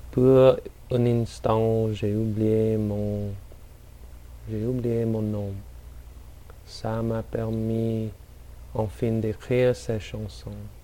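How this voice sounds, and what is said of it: French spoken with poor non-native accent. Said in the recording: “My accent's probably pretty terrible.”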